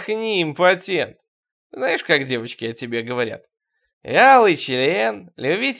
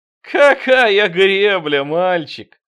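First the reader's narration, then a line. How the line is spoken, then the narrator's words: Laughing reply. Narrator (Russian): с хохотом ответил я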